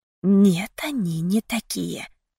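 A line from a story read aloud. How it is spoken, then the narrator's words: Whisper inside head. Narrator (Russian): раздался шепот у меня в голове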